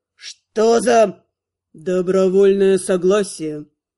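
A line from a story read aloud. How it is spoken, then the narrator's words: Gloomy statement. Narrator (Russian): мрачно констатировал Витор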